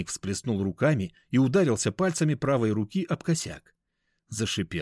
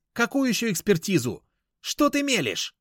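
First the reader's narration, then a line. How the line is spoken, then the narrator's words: Yelling. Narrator (Russian): заорала Надежда Павловна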